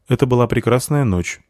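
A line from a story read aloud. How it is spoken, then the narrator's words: Dry. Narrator (Russian): сухо сказал Вар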